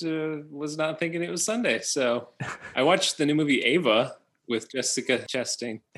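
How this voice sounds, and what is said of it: Usual voice. Nothing is said of it.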